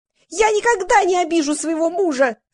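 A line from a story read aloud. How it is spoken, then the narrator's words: Squealing. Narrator (Russian): завизжала Валя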